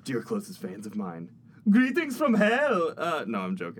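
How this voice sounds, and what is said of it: Imitated character voice. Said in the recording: “this is my Archmanos impression ... Pretty spot on.”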